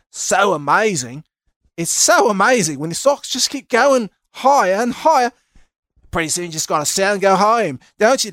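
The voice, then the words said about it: Put-on Australian accent. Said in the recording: “I went into a little bit of Aussie accent. ... I went from Valley Girl to Australia, and then ended up in New Zealand on that one.”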